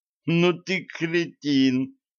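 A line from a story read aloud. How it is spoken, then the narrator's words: Groan. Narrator (Russian): простонал Ланс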